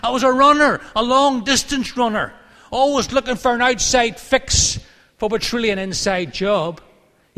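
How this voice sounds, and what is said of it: Irish accent. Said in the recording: “an Irish accent”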